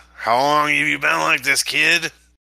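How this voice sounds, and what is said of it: Scratchy smooth Burgess Meredith impression. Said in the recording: “I can't do a good impression... his very smooth voice... it's like scratchy, but also like smooth”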